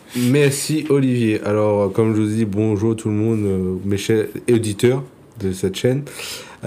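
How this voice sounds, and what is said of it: Réunion French accent. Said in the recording (French): “tout le monde a reconnu ton accent, d'être originaire de la, de la Réunion”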